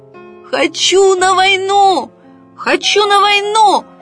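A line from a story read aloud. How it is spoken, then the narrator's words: Full-throated shout. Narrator (Russian): во все горло закричал оловянный солдатик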